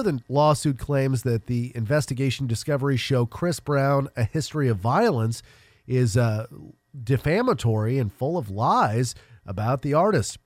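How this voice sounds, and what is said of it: Congested, nasal voice. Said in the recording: “Sound a little congested. You sound a little nasally.”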